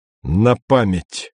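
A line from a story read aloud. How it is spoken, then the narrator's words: Loud statement. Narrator (Russian): громко сказал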